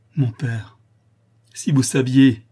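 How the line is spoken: Exclaimed. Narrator (French): s'écria Louise

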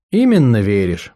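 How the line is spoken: Sighing. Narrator (Russian): вздохнула Ферге

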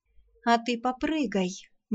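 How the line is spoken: Gloomy advice. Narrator (Russian): мрачно советовала Арсана

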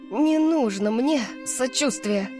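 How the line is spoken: Hoarse rasp. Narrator (Russian): прохрипела Сиона

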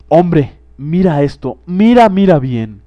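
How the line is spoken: Ghost exclaiming. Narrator (Spanish): exclamó el fantasma

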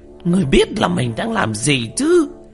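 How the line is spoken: Shout. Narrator (Vietnamese): Quỷ Di hét lên

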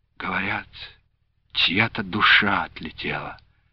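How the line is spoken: Quiet. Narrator (Russian): тихо промолвила Люба

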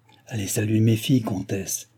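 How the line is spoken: King speaking softly. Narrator (French): dit tout bas le roi à Madame du Barry

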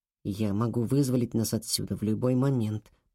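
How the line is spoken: Whisper. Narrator (Russian): прошептал он

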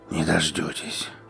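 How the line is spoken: Hoarse rasp. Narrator (Russian): прохрипел я

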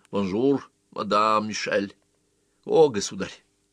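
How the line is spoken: Joking tone, dying man. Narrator (Russian): Умирающий сказал шутливым тоном

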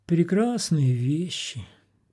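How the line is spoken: Sigh. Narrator (Russian): вздохнул Антон

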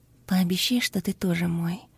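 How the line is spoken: Passionate whisper. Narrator (Russian): прошептала ему в губы, чувствуя, что сгораю от жара

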